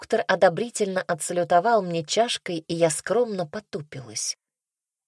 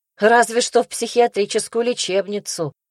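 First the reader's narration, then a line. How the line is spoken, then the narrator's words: Scoffing snort. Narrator (Russian): хмыкнула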